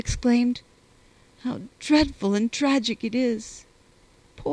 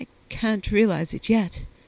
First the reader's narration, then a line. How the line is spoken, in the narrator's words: she murmured